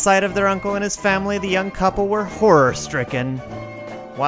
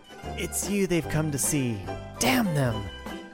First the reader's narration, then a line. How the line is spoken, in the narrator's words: looked almost with hatred at his young wife and whispered